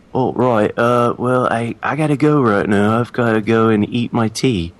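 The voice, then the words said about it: Bad put-on British accent. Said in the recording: “world's worst British accent”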